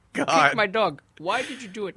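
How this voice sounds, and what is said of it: Put-on Eastern Mediterranean accent. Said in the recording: “That voice sounds like my every Greek aunt. ... Same accent. ... It's Turkish. ... Eastern, yeah.”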